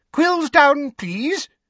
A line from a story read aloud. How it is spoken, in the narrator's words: squeaked Professor Flitwick